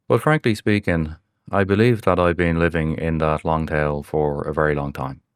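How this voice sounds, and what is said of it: Irish accent. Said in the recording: “I'm aware of my pronunciation of the word niche. So to my American audience, you may pronounce that as a niche. Apologies once again for my Irish accent.”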